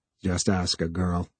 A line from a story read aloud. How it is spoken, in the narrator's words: he muttered